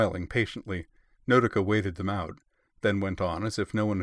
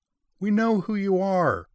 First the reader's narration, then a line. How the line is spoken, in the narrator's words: yelled someone from the back